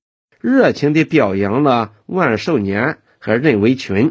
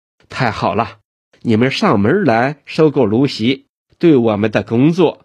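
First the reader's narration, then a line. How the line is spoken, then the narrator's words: Excited. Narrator (Chinese): 周永康情绪大大兴奋起来，道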